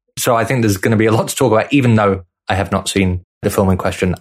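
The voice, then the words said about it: British English accent. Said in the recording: “I am also authentically British ... how about that accent, everybody? ... I actually live in the part of England”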